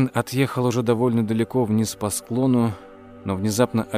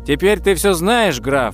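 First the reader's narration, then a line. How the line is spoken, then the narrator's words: Shout. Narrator (Russian): выкрикнул он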